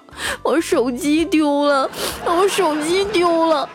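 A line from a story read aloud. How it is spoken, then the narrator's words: Sobbing, mumbling. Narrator (Chinese): 彩彩 大哭 一边哭一边念叨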